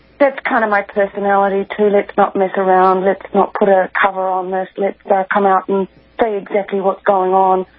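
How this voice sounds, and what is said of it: New Zealand accent. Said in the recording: “your lovely Kiwi accent from down under there”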